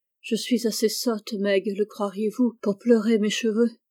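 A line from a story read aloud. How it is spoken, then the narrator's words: Muffled grieving cry. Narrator (French): s'écria la pauvre Jo, qui essayait en vain d'étouffer son chagrin dans son oreiller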